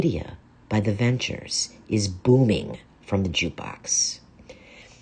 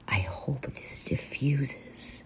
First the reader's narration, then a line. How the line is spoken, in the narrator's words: I whisper to Elsa